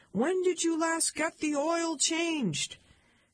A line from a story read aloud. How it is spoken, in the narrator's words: Chuck screamed